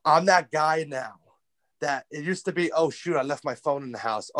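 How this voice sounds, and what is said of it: New York accent. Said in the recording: “got it from my accent, I'm a New Yorker”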